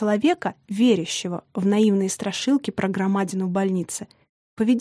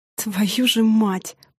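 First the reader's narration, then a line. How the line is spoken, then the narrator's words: Angry, through gritted teeth. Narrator (Russian): процедил Южин, злясь на себя за испуг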